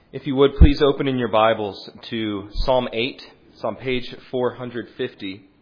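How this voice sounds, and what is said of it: Philadelphia accent. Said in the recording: “I'm from Philadelphia, in case you were wondering what this accent was.”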